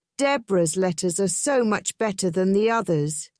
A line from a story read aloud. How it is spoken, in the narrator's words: she said